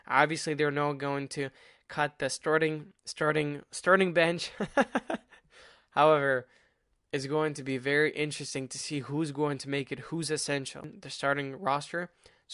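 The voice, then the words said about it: Stuffy nose, voice cracking. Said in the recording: “My voice is kind of cracking right now. My nose is stuffy from swimming in the morning.”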